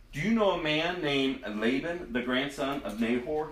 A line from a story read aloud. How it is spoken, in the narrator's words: he asked